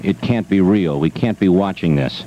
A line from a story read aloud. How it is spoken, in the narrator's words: stunned students murmured